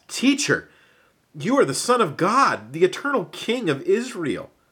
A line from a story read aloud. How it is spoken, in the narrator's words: Nathanael gasped